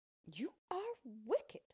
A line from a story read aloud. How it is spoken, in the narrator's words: cried Dorothy